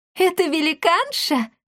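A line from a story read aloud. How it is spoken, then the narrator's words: Laughing. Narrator (Russian): рассмеялась Дарина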